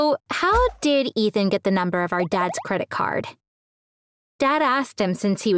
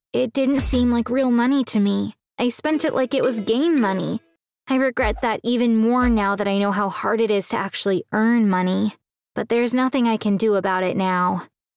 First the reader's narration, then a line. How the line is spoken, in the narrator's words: He said sadly